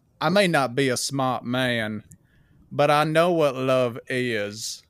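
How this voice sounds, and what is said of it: Southern-accented movie character impression. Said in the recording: “southern accent ... doing Forrest Gump ... it's pretty good”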